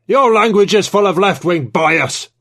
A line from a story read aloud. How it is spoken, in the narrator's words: Trevithick bellowed